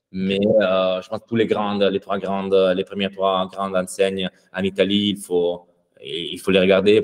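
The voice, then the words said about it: Italian accent speaking French. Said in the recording (French): “cet accent italien qui est assez cool à entendre”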